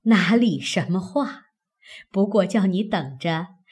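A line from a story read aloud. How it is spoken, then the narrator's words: Laughing. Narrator (Chinese): 邢夫人笑道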